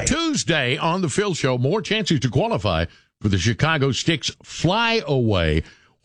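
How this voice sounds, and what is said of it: Polished radio announcer voice. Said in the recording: “has got a great voice. That dude's voice, that is a radio voice right there.”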